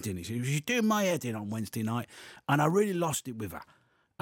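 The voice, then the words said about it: Put-on accent while storytelling. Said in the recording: “You've got to stop this accent”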